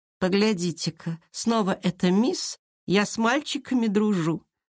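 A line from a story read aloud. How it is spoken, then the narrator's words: Venomous sneer through teeth. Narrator (Russian): с ядовитой усмешкой процедила Лера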